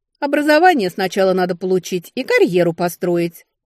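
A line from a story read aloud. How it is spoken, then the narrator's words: Scoffing snort. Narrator (Russian): фыркнула я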